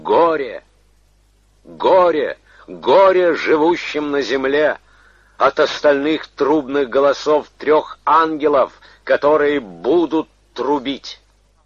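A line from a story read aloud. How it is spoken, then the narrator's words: Angel's loud voice from sky. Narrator (Russian): ангела, летящего посреди неба, и говорящего громким голосом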